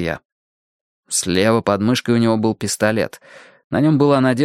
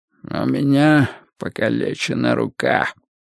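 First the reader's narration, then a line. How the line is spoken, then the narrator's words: Hoarse whisper. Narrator (Russian): Мигель Каррерас говорил хриплым шепотом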